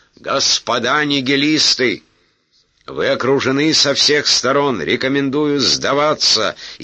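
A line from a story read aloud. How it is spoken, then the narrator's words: Shout. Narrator (Russian): Пожарский крикнул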